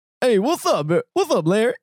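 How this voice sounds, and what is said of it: Imitates another person's voice. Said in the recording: “Find my way into an impression of it ... This is JB Smoove”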